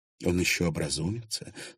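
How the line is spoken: Weak voice. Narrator (Russian): слабым голосом произнесла Виктория

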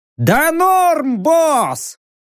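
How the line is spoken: Goblin shouting from above. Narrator (Russian): прокричал сверху гоблин

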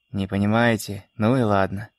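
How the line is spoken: Shopkeeper's snort. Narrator (Russian): хмыкнул лавочник

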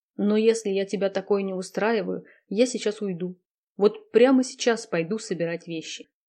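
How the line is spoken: Quiet. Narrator (Russian): тихо сказал

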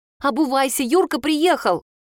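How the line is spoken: Joyful squeal. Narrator (Russian): Маринка аж взвизгивает от радости

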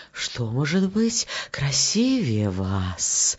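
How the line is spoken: Wind whispering. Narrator (Russian): ветер шептал розам

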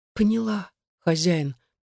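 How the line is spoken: Crushed whisper, girl. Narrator (Russian): прошептала девушка убитым голосом

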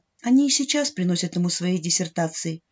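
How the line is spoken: Quiet, proud yet reproachful mother. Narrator (Russian): тихо сказала мама, не то гордясь папой, не то в чем-то его упрекая

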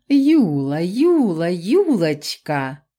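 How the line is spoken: Insinuating, spine-tingling purr. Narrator (Russian): вкрадчиво мурлыкнул эльф, от голоса которого по телу прокатились мурашки и дыхание перехватило

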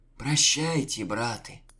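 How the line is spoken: Exhaled. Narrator (Russian): выдохнул Анисим

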